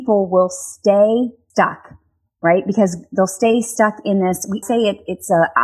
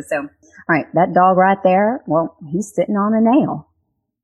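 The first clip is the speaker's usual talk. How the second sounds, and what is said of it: Weak put-on Texas accent. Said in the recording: “I'm going to do my Texas accent ... that might have been a terrible Texas accent”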